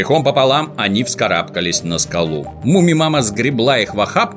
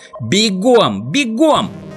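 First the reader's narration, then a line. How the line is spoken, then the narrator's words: Shouting. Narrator (Russian): закричала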